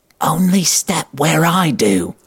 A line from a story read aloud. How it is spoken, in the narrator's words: whispers loudly